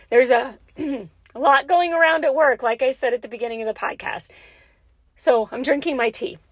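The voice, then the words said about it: Scratchy, slightly hoarse voice. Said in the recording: “losing my voice a little bit ... So my voice is a little scratchy.”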